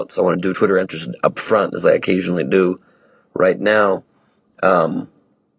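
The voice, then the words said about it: Hoarse, worn-out voice. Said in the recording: “my fifth city in a row, you can hear my voice is just shot at this point”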